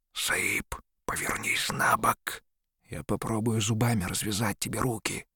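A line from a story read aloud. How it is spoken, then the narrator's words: Whispering. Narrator (Russian): Бахрам шептал ему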